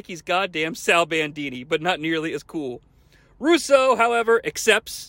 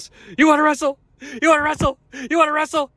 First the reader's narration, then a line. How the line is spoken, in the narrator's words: Flair then yells